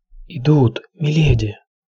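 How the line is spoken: Whisper. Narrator (Russian): шепнул Хал Моллин

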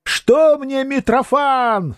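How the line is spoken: Shouting. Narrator (Russian): закричал Феодосий

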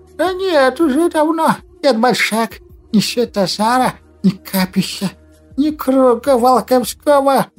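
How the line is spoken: Lisping, insistent. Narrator (Russian): Прошепелявил Лихорук, пытаясь что-то доказать старику

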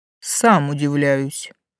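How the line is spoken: Snorting chuckle. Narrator (Russian): хмыкнул Влас

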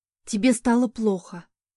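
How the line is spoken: Relieved exhale. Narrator (Russian): с облегчением выдохнула

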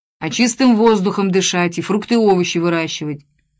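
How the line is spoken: Irritated. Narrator (Russian): раздраженно ответил Лыгин

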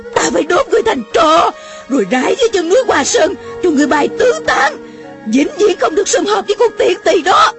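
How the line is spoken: Woman yelling. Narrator (Vietnamese): Mụ la lên

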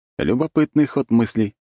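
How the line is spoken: Wry snort. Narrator (Russian): хмыкнул я

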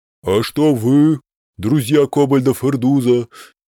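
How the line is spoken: Booming bass. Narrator (Russian): раскатисто пробасил Транта Рикуририн

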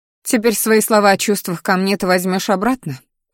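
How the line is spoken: Bitter snort. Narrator (Russian): хмыкнула Алиса

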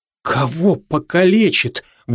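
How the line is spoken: Terrified whisper. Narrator (Russian): в ужасе прошептала Лиза

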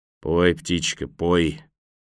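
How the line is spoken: Gloomy mutter. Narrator (Russian): мрачно пробормотал партизан

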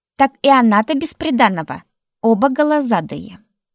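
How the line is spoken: Snort. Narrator (Russian): хмыкнул кто-то

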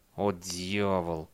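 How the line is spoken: Through gritted teeth. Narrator (Russian): процедил Бейли сквозь зубы

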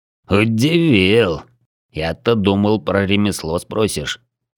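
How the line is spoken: Amused snort. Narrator (Russian): хмыкнул Бородатый

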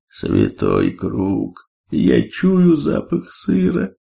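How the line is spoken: Entranced drawl. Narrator (Russian): завороженно протянул Бвонг

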